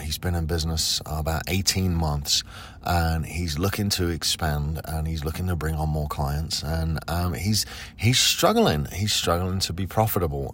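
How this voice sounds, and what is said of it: Sick voice, cracking at times. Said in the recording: “my voice may start to go. I've been sick for about a week ... sometimes my voice cracks”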